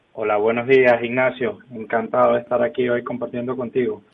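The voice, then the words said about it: Venezuelan Spanish accent. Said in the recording (Spanish): “ese acento no es muy gallego ... Venezolano.”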